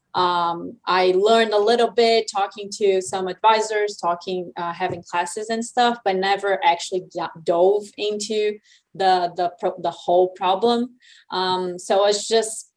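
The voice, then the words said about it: Non-local regional accent. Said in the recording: “I'm not originally from Alabama, from my accent, you can tell”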